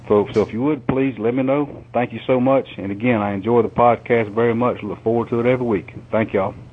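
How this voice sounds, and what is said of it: Southern Georgia accent. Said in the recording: “I love to hear him talk. So yeah. Georgia. ... Love the accent.”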